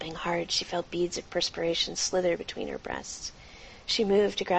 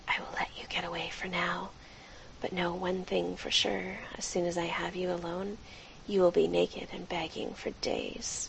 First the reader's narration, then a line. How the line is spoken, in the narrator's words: he bent to her ear and whispered